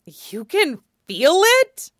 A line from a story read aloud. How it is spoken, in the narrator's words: Felix exclaims, voice a little frantic